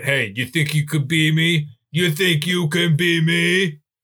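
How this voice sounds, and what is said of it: Imitates another person's voice. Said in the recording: “that's my impression of Bob”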